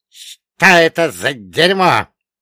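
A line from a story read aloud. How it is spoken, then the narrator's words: Hiss. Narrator (Russian): прошипел Черномор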